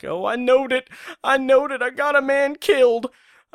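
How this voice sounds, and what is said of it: Impression of James Best. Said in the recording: “my best James Best impression.”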